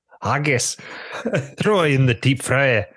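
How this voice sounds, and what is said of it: Put-on Scottish accent. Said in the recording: “I want you to do the Scottish accent.”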